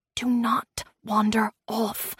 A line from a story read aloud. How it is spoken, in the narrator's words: I whispered to him